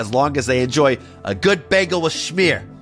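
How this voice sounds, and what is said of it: Put-on New York accent. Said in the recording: “not sure why I did that New York accent.”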